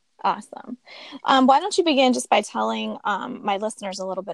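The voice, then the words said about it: Scratchy voice. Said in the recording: “My voice is a little scratchy from my allergies”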